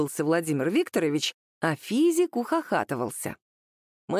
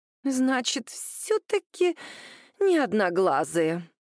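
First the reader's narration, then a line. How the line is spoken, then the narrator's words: Disappointed sigh. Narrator (Russian): разочарованно вздохнула Наталья Александровна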